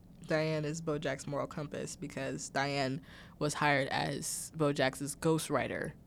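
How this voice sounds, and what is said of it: Dry throat, slight vocal fry. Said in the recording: “my throat is really dry ... I have like a little bit of like a vocal fry. It's not intentional. It's just, I've been talking for a very long time.”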